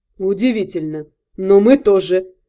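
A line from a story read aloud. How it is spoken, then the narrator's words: Muttering to himself. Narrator (Russian): пробормотал себе под нос Вашарий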